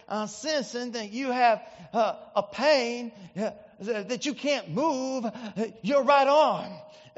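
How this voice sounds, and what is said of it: Impression of Ernest Angley's accent. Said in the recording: “like in his great accent”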